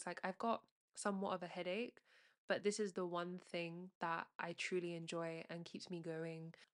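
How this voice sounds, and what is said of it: Sick-sounding voice. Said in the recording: “I'm not feeling great... I was feeling sick. Today, you can hear it in my voice.”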